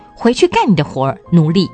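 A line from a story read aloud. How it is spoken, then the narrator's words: Abrupt. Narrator (Chinese): 忽然地站起来说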